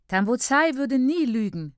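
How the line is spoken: Calls out. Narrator (German): ruft Niari

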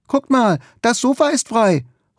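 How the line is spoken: Excited call. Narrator (German): ruft begeistert

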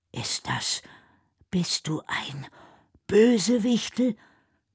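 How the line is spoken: Almost toneless whisper. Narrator (German): flüstert Noah fast tonlos

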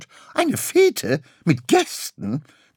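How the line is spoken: Shrieked. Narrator (German): kreischte Graugans

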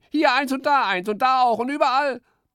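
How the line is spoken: Whining lament. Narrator (German): jammerte Eichhörnchen

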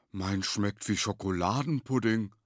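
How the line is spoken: Tall one, excited call. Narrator (German): rief der Lange begeistert

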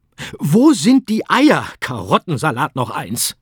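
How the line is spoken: Easter Bunny blustering. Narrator (German): polterte der Osterhase

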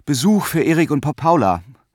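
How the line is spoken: Mother stuttering. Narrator (German): stotterte die Mutter

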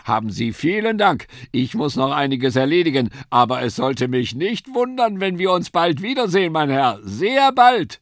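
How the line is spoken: Calling while running off. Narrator (German): rief er, während er davonlief

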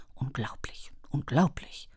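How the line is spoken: Murmured. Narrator (German): murmelte sie

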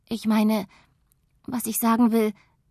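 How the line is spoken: Stuttering. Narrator (German): stottert sie

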